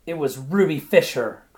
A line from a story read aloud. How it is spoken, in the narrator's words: cried Ruby